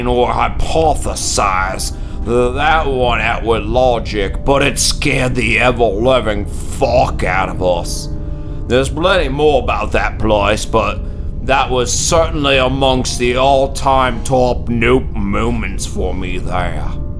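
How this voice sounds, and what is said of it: Impression of another person's voice. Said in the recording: “that was an amazing Kyle Brock impression ... You channeled him ... my own impression”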